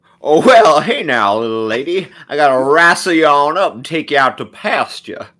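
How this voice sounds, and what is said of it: Cowboy character voice with drawl. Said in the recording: “As the cowboy, of course. ... Can you use that accent”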